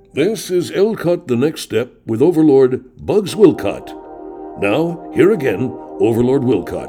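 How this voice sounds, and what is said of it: Announcer voice. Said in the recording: “Now I'm going to go into my announcer voice.”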